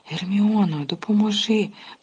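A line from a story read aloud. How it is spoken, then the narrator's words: Moaning plea. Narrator (Ukrainian): простогнав він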